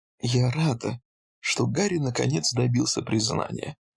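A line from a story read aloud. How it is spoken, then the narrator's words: Sad smiling nurse. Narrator (Russian): печально улыбнулась медсестра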